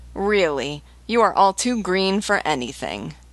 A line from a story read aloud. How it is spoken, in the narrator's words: writhing with laughter, exclaimed